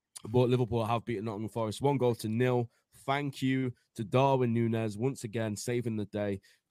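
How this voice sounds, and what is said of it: Hoarse, strained voice. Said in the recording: “My voice is gone because of how much I've been screaming running around my living room.”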